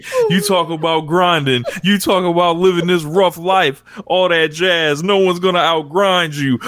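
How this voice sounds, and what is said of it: Imitated New York accent. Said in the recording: “I'm going to reenact Mr. Eddie Kingston's promo here ... Please don't use the accent ... The New York accent.”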